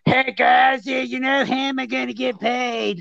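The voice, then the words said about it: Whiny imitated voice. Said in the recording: “that's how he talks. He's got a real whiny voice. ... He sounds like Cartman.”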